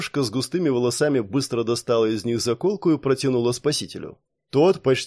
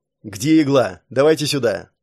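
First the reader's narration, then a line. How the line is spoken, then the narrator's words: Angry bark. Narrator (Russian): Зло рявкнул Саш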